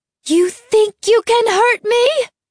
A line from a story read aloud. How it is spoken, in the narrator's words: She screamed